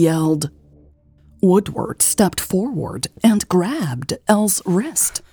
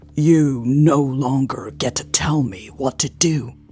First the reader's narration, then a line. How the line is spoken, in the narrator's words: he growled